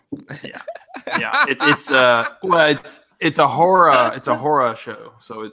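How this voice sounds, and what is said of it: Odd Southern-sounding pronunciation of horror. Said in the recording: “you're saying horror like Colleen says horror ... I thought you were doing a weird Southern accent”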